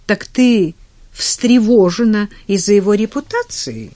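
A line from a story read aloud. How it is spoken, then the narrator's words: Sudden knowing smiling exclamation. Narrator (Russian): Неожиданно, понимающе улыбнувшись, воскликнул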